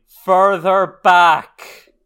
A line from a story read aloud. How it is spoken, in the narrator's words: they hear a voice shouting